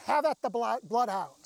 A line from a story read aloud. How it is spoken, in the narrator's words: they are screaming